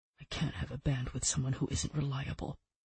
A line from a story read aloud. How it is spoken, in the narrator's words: Roland said, his voice lowered